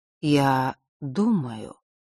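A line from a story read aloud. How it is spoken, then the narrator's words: Slow. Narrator (Russian): медленно произнес Нортон-старший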